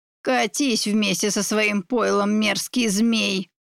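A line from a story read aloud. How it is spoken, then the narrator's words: Hissed. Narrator (Russian): прошипела она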